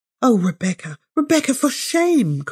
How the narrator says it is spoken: cried Miss Sedley, for this was the greatest blasphemy Rebecca had as yet uttered

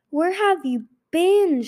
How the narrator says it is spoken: She roared

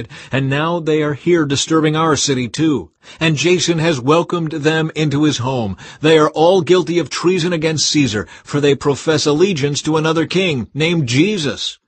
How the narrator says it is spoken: they shouted

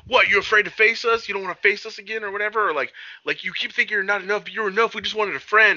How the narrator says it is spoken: yelling at him, saying

